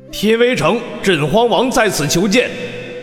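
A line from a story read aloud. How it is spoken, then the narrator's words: Calling out loudly. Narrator (Chinese): 镇荒王 喊道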